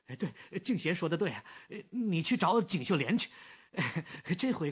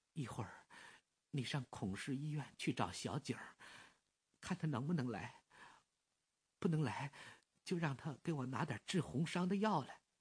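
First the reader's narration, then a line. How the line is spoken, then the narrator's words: Weak voice. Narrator (Chinese): 关敬贤声音微弱的 说着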